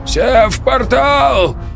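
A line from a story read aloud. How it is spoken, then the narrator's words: Old man shouting. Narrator (Russian): крикнул старый Вержбицкий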